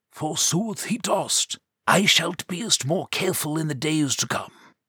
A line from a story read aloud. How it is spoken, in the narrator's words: Sir Scabby whispered back